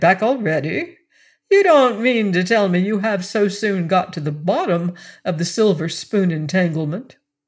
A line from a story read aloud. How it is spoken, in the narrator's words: he cried